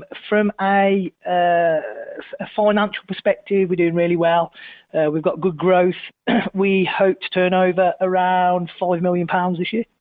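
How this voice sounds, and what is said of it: English Midlands accent. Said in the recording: “we are based in a little village in a farmhouse in the Midlands, as you can probably tell from the accent”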